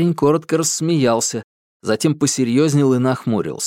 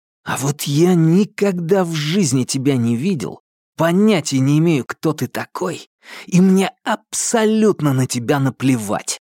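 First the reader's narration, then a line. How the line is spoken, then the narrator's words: Hissing. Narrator (Russian): прошипел Томас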